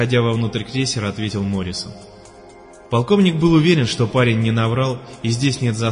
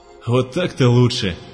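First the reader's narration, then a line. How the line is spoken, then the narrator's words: Relieved sigh. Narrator (Russian): облегченно вздохнул полковник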